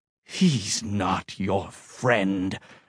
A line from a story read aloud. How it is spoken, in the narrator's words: Angelus hissed